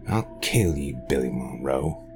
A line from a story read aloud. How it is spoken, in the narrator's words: he growled